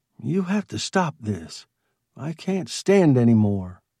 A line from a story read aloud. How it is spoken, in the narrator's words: his wife said, slowly and quietly